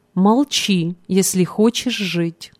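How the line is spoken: Calm but imposing. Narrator (Russian): Один из них спокойно, но внушительно произнес

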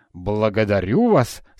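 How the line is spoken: Plain. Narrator (Russian): сказал Скрудж

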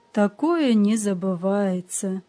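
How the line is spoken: Sighing. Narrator (Russian): вздохнул господин Видмар

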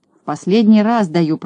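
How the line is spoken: Grumbling. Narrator (Russian): проворчал Козлик

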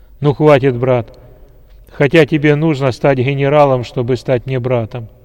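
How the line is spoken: Loud. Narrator (Russian): громко сказал генерал

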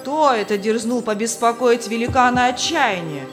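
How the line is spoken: Shouted. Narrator (Russian): крикнул хозяин замка

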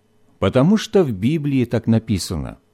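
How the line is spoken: Mother's calm explanation. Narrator (Russian): спокойно пояснила мама

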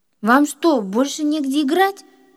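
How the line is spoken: Angry shout. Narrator (Russian): выкрикнул он

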